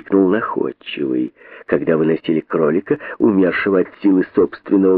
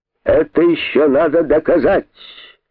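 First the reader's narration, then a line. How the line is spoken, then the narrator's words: King shouting. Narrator (Russian): закричал король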